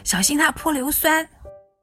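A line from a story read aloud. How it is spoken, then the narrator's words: Halting, accented speech. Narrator (Chinese): 口拙又有口音的欧丽桑终于把话说清楚了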